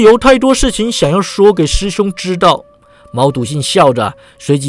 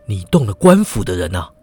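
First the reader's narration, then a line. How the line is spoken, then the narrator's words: Low, alarmed question. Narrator (Chinese): 郑恒洲神色一凛，低声问道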